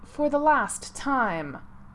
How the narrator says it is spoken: Severus snapped

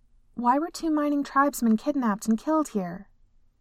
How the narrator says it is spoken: Nakia asked

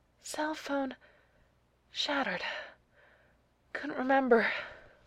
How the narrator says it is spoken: Neil rasped

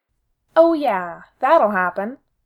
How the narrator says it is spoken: Sid snaps

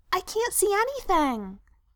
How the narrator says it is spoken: Frodo piped up, looking fractiously

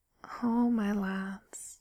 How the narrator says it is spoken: murmured quietly

